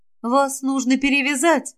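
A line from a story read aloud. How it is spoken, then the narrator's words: Uncertain. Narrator (Russian): неуверенно сказала Гвиневера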